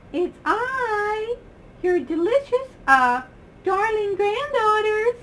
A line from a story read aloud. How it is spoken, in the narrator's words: said the wolf in a high voice